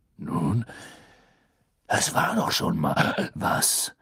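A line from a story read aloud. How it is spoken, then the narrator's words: Growling voice. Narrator (German): hörte er Moodys knurrende Stimme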